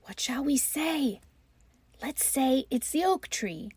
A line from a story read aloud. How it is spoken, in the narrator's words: desperately to one another, they whispered